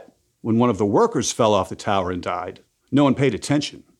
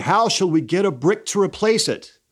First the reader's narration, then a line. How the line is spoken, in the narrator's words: all the workers cried and mourned its loss, saying